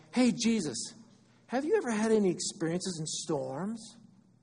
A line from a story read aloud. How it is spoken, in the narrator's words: They asked